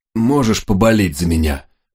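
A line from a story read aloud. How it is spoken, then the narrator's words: Hoarse, strained question. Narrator (Russian): хрипло спросил я, с трудом влезая в седло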